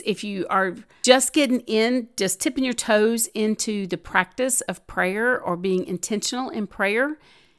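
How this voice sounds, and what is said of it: Southern American accent. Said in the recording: “sometimes the Southern accent cannot be overcome”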